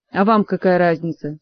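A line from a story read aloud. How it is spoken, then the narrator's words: Angry retort. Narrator (Russian): сердито отозвался мэтр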